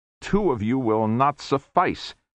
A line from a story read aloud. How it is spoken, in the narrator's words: snarled the auditor in their heads